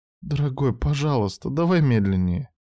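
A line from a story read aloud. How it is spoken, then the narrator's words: Pleading wife. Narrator (Russian): супруга умоляющим голосом попросила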